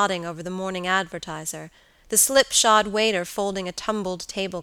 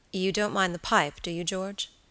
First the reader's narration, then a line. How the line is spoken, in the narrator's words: his friend asked quietly